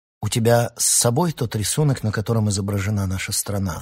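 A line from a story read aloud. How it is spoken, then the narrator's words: Plain. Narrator (Russian): спросил Могиен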